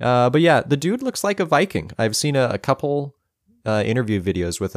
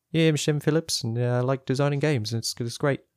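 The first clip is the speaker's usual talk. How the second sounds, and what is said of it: Poor attempt at New Zealand accent. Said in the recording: “that was a terrible accent ... that was like an Australian who's trying to get rid of their Australian accent. Hey, New Zealand is what I'm talking. It was not a New Zealand accent.”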